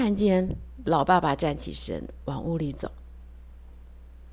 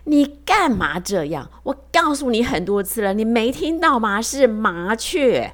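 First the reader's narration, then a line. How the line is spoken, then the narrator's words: Furious roar. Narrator (Chinese): 儿子怒火中烧，就对着老爸爸大吼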